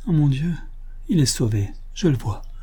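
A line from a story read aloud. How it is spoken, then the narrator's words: Murmur. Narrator (French): murmura-t-elle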